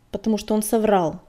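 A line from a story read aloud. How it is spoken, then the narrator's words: Rude. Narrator (Russian): грубо ответила Щербатая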